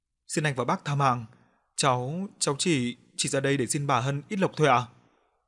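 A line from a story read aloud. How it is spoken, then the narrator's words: Stammering, pleading. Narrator (Vietnamese): Thằng Tạo ấp úng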